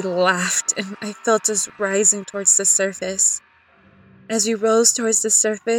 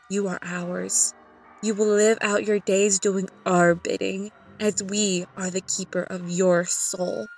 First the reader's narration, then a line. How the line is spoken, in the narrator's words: They whispered